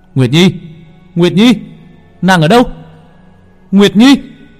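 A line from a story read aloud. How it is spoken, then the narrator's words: Screaming, calling out. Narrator (Vietnamese): Long Vân vừa đi vừa gào thét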